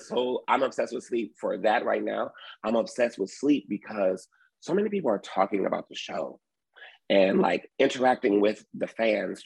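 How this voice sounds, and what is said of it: Slightly hoarse voice. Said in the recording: “As you can hear, I may be a little hoarse because I've been talking and I've been on microphones”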